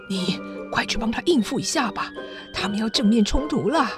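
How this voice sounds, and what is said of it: Speaking quietly, hushed voice. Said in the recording (Chinese): “小声地和克达免说”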